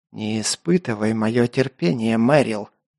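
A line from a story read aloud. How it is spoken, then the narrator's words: Hissing. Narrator (Russian): прошипел майор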